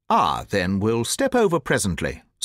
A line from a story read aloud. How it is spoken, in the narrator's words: said the Colonel, coolly